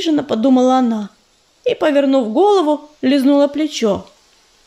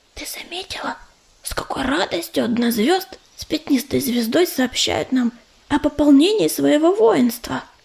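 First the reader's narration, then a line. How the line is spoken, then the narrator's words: Whispered question. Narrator (Russian): Шепотом спросила Белка сестру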